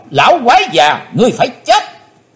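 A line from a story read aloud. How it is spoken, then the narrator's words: Shout. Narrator (Vietnamese): Miệng thì quát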